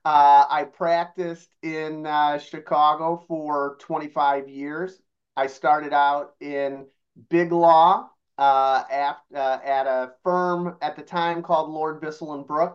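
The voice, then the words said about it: Chicago accent. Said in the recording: “as you can tell from my accent, a born and raised Chicagoan.”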